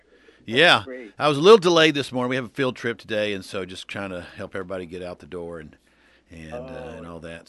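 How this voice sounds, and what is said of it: Slightly out of breath. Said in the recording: “little out of breath ... I basically ran over here”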